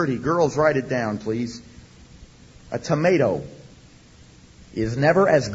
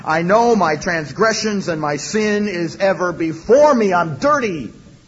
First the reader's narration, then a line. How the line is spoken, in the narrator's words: He was crushed inside and he fell to his knees and he cried out